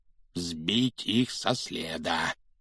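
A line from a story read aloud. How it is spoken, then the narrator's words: Muttering. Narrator (Russian): всякий раз бормотал дядя Вернон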